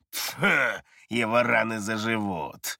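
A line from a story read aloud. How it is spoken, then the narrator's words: Lazy dismissive tone. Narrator (Russian): лениво отмахнулся Хайден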